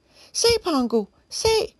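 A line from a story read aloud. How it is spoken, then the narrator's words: Shouting. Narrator (Danish): råbte Robert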